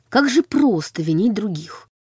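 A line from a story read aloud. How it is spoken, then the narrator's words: Muttering. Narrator (Russian): пробормотала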